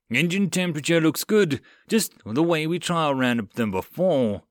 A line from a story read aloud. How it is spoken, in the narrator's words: one of the engineering guys on board called out